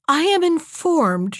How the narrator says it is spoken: she cried

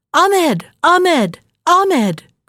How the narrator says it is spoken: cried she

